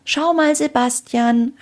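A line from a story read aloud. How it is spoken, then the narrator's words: Calling upward. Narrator (German): rief Anna zu Sebastian hinauf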